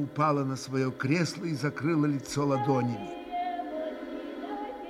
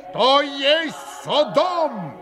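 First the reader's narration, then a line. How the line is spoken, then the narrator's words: Sudden roar. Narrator (Russian): взревел вдруг пан Врублевский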